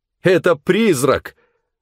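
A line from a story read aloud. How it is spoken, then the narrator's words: Frightened group shouting. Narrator (Russian): закричали они в страхе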